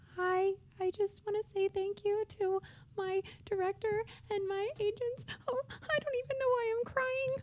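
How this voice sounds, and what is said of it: High-pitched munchkin-like imitated voice. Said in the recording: “her voice is so high ... you sound like a munchkin ... That's what she sounds like”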